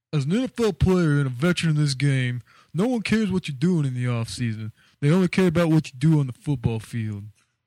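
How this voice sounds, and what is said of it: Imitates another person's voice. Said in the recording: “do your uh, this quote in Donovan McNabb impersonation ... I didn't know you, Dono now was a Guido as well.”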